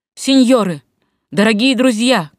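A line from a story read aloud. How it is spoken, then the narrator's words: Shout. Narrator (Russian): крикнул Юлий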